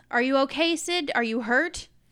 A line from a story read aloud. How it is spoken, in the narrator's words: Aralond yells